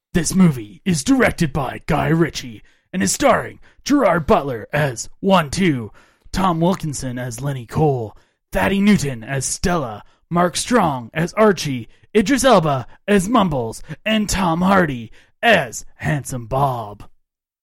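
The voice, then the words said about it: 90s movie trailer announcer voice. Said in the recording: “That's my 90s movie announcer voice.”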